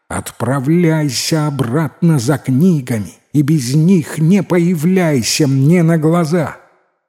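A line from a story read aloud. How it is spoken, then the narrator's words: Tearful angry shout. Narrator (Russian): Утерев слезы, гневно закричала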